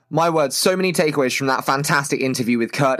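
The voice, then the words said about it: British accent. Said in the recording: “my dulcet British accent”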